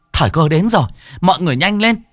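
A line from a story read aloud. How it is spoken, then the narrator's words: Woman shouting. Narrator (Vietnamese): bà Dương hét lên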